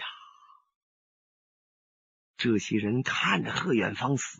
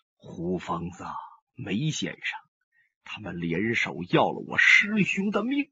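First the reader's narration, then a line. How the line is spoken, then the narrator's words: Low, deep voice. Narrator (Chinese): 上官金鸿声音低沉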